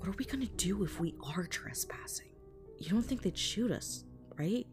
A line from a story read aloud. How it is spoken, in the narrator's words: Ashley whispered to Tommy